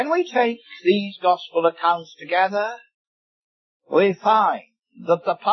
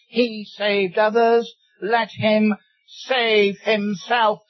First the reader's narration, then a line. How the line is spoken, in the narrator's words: The rulers sneered at him, saying